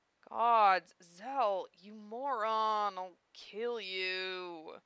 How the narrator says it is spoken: Lena moaned

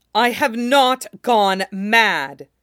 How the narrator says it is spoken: Jaime shouted at her, a battleground voice, and it came booming back at him off the walls

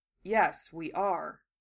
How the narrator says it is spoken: Gaara said softly

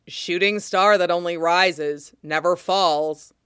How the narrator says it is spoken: Fox quotes, loudly and mockingly, because he is absolutely an asshole

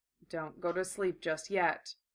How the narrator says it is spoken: Gara murmured

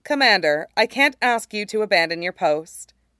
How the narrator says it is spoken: she says softly

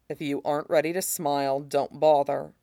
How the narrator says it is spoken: says, still in that soft voice

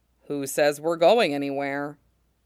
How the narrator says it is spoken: Pons asks mildly

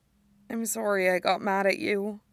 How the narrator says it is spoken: she mumbles

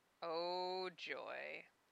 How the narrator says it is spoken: he muttered

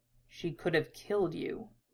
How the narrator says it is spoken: muttered quietly

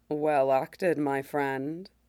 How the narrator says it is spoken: Shaak murmurs

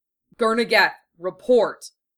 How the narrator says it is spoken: he growled into his general comm

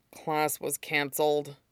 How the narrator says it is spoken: Aizawa murmured

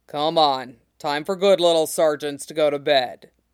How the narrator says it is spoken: he grunts

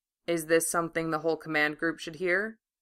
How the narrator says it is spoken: He asked quietly

